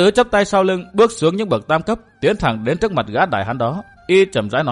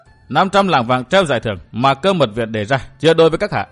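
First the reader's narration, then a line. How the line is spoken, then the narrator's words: Scornful laugh. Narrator (Vietnamese): Lâm Tứ cười khẩy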